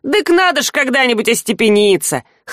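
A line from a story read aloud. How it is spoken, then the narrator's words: Snorting grunt. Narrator (Russian): хмыкнул тот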